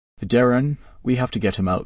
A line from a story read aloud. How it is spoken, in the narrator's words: says urgently